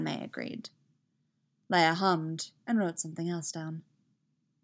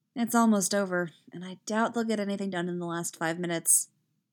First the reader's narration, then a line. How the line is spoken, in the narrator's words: she said